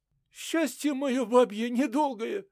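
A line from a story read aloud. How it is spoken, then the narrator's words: Sobbing woman. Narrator (Russian): всхлипывала Милка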